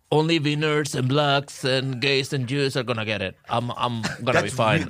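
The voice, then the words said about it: Imitates another person's voice, Spanish accent. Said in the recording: “the accent was really good ... That's a really good Trump. ... That's a really good Spanish Trump.”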